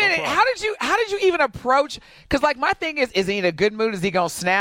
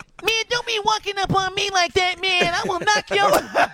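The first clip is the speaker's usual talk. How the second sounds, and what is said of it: Imitates another person's voice. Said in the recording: “Mike Tyson. ... Shout out to Mike Tyson. That was a good impression.”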